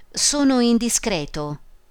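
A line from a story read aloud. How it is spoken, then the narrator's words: Plain. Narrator (Italian): disse Calmi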